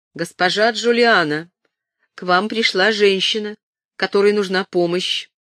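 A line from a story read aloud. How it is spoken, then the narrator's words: Priest's resonant voice. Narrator (Russian): Священник произнес своим звучным голосом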